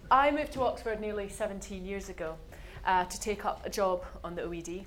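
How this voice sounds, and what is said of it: Subtle Scottish accent. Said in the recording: “as you can probably tell from my accent, I'm not originally from round these parts. And I know it's subtle... a Scot”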